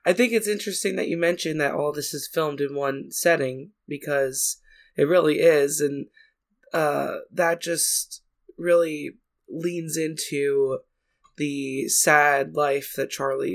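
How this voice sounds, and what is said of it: Rough, ailing voice. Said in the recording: “Please excuse my voice, obviously. I'm trying my best to not sound like I'm dying.”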